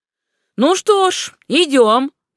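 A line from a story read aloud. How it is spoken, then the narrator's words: Cheerful shout. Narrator (Russian): весело крикнул де Герсен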